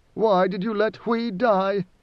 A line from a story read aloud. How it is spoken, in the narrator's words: Idaho moaned